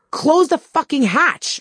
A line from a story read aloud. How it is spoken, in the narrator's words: I screamed over the wind